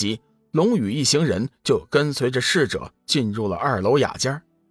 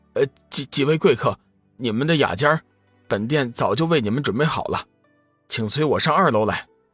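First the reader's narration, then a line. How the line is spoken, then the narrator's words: Obsequious, hurried. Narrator (Chinese): 店内的侍者急忙陪着笑脸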